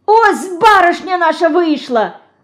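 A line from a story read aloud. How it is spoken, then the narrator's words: Sudden shout. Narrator (Russian): Закричала вдруг Ульянка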